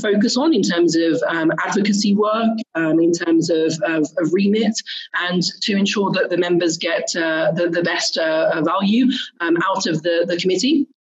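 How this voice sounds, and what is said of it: British accent. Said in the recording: “as you can tell by the accent, I, I, am British”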